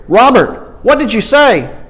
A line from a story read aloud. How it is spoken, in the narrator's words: Carla shouted directly into his ear